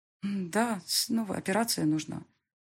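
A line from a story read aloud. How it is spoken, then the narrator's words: Sighing. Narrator (Russian): вздохнула Рогозина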